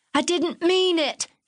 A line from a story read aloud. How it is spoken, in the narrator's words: she sobbed